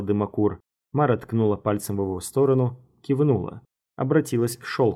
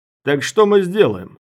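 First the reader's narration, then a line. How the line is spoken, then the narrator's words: Shouted. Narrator (Russian): крикнул Дымокур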